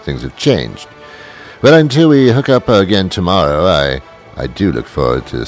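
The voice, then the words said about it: Put-on British accent. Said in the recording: “my British accent ... I wasn't talking like this then”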